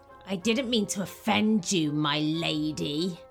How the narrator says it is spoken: he sneered

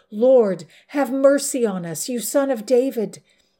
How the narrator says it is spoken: they cried out even more

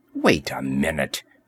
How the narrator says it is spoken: she growled

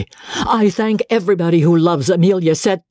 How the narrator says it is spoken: George said fiercely

